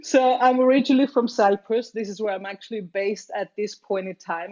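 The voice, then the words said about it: Unusual foreign accent. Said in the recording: “my very weird accent”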